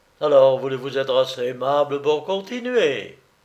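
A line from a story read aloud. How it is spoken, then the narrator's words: Warm, enveloping voice. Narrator (French): Le beau Willy parlait d'une voix si chaude, si enveloppante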